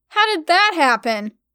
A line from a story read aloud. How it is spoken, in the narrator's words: I yelled